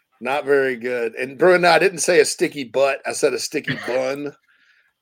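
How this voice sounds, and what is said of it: Speaks with a regional accent. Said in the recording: “That's just my stupid accent.”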